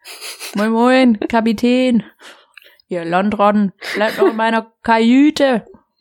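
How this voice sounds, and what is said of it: Put-on Hamburg dialect. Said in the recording (German): “Ich rede ja jetzt hamburgerisch ... Kann es richtig gut, finde ich. Ja, ganz, ganz klasse.”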